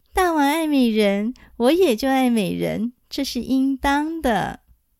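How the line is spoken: Muffled laughing. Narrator (Chinese): 郑绣用袖子掩着嘴笑说

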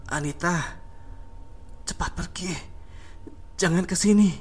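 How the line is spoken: Soft faint voice. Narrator (Indonesian): ucap Bagus dengan suara yang lirih

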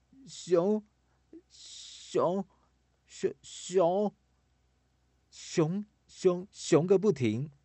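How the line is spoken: Stammering. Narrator (Chinese): 琪琪一直结结巴巴的

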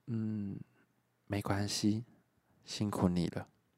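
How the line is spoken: Unexpectedly gentle. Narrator (Chinese): 白白意外的温柔说

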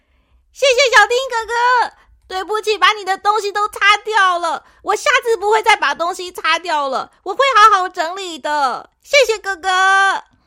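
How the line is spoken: Happy, loud. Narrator (Chinese): 小扑已经高兴的 大声的说

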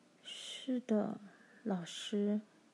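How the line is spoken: Slow, reluctant. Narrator (Chinese): 密尼慢吞吞的回答

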